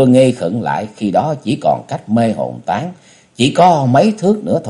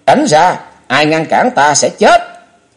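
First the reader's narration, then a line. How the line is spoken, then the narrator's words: Sudden roar. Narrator (Vietnamese): chợt gào lên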